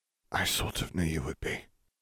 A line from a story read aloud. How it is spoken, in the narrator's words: he whispered